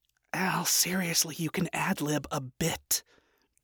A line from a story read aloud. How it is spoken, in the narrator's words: Charlie muttered